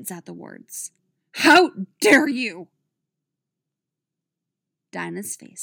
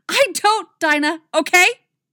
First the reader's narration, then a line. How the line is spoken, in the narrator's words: Artemis shouts